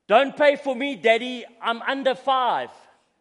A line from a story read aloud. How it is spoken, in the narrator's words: the boy said loudly